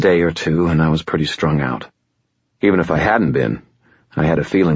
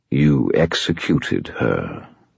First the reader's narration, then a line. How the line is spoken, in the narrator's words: the Merlin said quietly